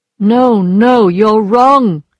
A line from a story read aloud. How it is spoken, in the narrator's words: replied in a strong voice